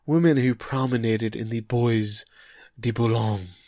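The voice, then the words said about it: Bad put-on French accent. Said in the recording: “I just followed up with a bad accent. Apologies to our, our French listenership.”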